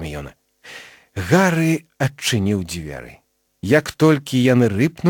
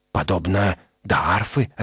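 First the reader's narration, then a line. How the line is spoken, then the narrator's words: Plain. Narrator (Belarusian): адказаў Рон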